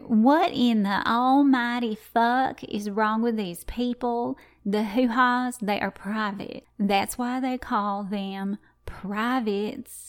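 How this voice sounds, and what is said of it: Attempted Southern accent impression. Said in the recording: “I can't do my mom's accent. I wish I could. I'll try. ... I seriously cannot do her accent ... she sounds more southern than any southerner I've ever come into contact with.”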